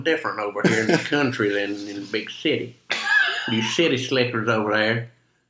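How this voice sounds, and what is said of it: Put-on Appalachian country accent. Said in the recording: “Is that voice like that's not even close? ... that's more West Virginian ... you sound like an Appalachian miner”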